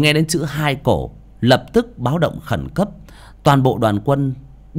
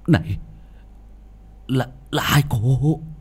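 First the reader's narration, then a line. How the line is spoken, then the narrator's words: Stammering. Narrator (Vietnamese): Quỷ binh lắp bắp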